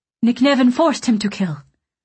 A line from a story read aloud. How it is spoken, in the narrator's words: Solariel said quickly